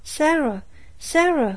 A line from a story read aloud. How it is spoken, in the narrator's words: cried Frances in terror